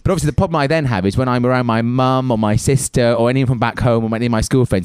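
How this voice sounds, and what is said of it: Irish accent with anglicised tones. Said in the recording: “my accent now is a lot more English sounding than it should be naturally ... I just hear nothing but Irish, Irish, Irish, and I love your accent”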